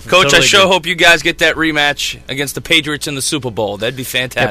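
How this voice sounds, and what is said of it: Boston accent. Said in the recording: “from Boston, if you couldn't tell by the accent”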